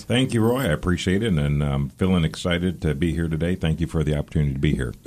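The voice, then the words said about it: Polished radio-style speaking voice. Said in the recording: “you've got a great radio voice, that's for sure”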